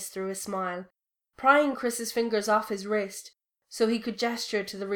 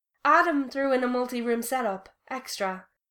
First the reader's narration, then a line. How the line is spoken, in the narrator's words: he said cheerfully